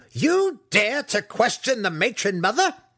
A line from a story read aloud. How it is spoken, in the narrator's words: Breeza started sharply